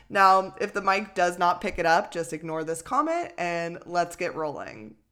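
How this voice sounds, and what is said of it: Congested, nasal voice. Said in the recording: “I do have a nasally nose right now ... I sound a little congested.”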